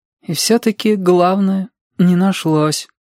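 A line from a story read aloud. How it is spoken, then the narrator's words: Sad and stubborn. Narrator (Russian): печально и упрямо произнес Сашка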